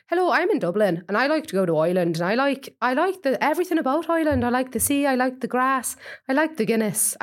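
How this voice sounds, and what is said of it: Put-on Irish Dublin accent. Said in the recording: “Can you do a good Dublin accent ... I was actually doing an Irish accent ... Irish listeners, if you're fucking dying right now”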